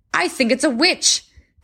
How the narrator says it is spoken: called out the men at the end

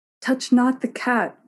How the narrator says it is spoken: cried, echoing her mother

